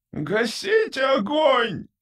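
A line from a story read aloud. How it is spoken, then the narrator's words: Screaming. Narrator (Russian): вопил первый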